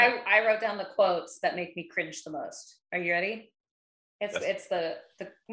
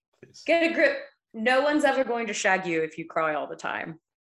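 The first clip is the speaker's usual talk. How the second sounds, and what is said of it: Attempted English accent. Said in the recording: “I'll try to do my best English accent as well.”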